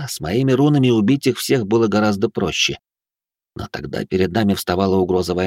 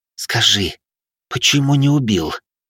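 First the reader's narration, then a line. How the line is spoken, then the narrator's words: Hiss. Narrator (Russian): прошипела она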